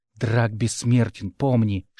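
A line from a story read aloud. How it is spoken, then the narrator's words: Whispered. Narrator (Russian): шепнул мне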